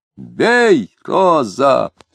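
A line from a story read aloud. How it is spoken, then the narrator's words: Strained shout. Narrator (Russian): с натугой кричал Дронов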